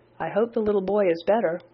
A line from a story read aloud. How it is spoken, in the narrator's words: calmly and politely saying